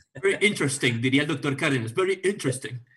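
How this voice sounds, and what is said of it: Mock British accent. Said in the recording (Spanish): “con acento británico. British accent.”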